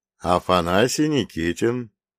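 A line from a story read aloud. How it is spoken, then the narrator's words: Calm, slightly weary introduction. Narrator (Russian): представился он спокойно, но с легкой усталостью в голосе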